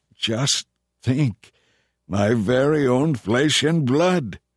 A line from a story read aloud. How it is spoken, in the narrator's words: Laban exclaimed